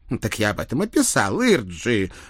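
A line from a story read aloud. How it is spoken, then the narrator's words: Offended outburst. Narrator (Russian): обиженно вскинулся мой сослуживец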